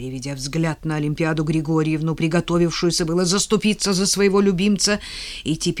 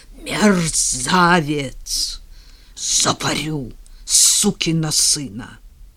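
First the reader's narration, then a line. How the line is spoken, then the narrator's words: Menacing, uncontrolled exhale. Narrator (Russian): уже не в силах сдержаться, грозно выдохнул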